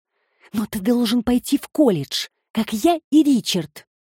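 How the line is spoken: Exclaimed. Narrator (Russian): воскликнула Петрина

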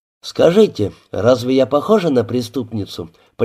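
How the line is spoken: Almost joyful, confident question. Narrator (Russian): почти радостно спросила она, уверенная в ответе

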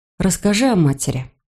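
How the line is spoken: Muttering. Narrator (Russian): бормочу

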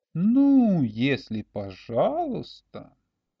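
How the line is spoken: Drawn-out, musing. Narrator (Russian): протянул Олег, как бы раздумывая

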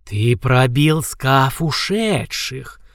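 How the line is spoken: Stunned hiss. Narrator (Russian): прошипел ошарашенный рептилоид

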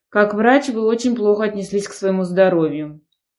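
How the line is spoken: Man's stern reproach. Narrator (Russian): пожурил мужчина, строго сдвинув брови

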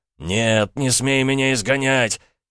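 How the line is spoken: Sudden yell. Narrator (Russian): Внезапно князь заорал

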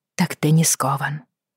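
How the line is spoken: Dull, dazed mutter. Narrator (Russian): тупо пробормотала она

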